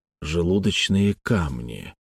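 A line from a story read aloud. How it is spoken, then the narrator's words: Quiet. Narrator (Russian): тихо произнес Грант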